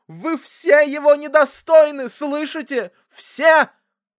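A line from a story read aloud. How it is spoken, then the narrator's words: Reproachful sobbing. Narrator (Russian): разрыдалась с укором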